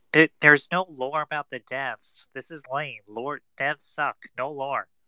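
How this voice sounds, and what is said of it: Imitates another person's voice. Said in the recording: “your impression of him”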